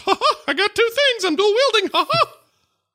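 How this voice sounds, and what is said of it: Imitates Mickey Mouse's voice. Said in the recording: “It's not cool unless his voice got cool ... impression is actually.”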